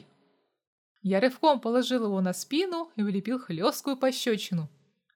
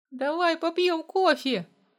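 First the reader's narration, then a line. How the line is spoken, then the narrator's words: Pleading. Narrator (Russian): взмолился он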